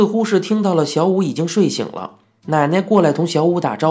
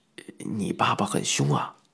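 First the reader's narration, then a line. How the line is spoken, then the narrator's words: Whispered close to ear. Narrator (Chinese): 他附在我耳朵边，轻轻的嘀咕道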